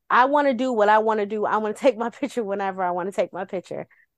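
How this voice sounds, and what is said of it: Imitated heavy New York accent. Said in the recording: “he's from New York because the way he has this the heavy ass accent from up there”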